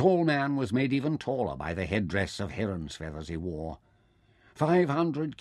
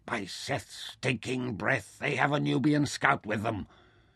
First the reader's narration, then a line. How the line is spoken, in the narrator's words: Suddenly Taita muttered unhappily